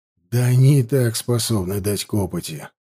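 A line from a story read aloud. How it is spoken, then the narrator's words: Sighing. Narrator (Russian): вздохнул я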